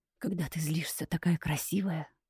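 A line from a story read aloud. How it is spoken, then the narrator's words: Whisper. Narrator (Russian): послышался шепот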